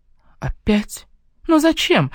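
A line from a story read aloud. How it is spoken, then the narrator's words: Exclaimed. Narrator (Russian): воскликнула я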